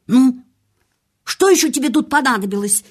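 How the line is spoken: Angry question. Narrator (Russian): сердито спросила она

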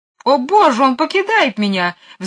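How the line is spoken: Shrieking. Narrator (Russian): взвизгнула мисс Ларк

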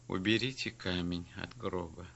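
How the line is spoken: Calm but firm. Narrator (Russian): сказал спокойным, но твердым голосом

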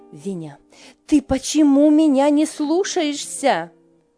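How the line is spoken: Shouting. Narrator (Russian): крикнула она

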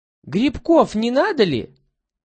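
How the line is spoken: Squeaky imitation of peddler women. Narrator (Russian): Пищит Петька тонким голоском, стараясь тоном подражать бабам, продающим грибы, ягоды и овощи

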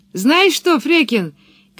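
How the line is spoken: Shouted from tree. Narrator (Russian): крикнула Пеппи со своего дерева

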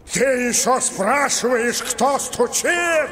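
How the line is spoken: Thunderous, furious shout. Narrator (Russian): Закричал горный король, и от его страшного голоса затряслась земля

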